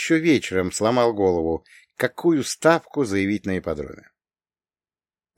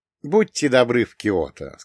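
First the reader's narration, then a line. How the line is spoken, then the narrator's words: Plain. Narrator (Russian): сказал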